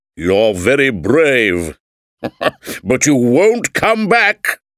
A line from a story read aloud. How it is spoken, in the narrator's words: laughed the king